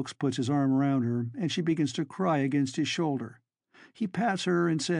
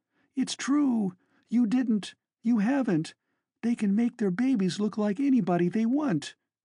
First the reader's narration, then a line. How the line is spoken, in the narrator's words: she wails